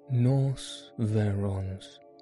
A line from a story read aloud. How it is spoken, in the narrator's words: answered Holmes calmly